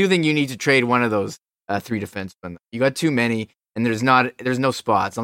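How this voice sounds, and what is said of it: Usual voice. Nothing is said of it.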